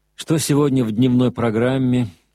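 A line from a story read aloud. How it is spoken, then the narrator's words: Tired question. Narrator (Russian): спросил он устало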